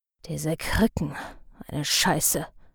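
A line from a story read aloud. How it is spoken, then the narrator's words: Cursing quietly. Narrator (German): fluchte Tepp leise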